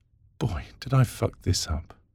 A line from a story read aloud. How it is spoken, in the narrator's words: she muttered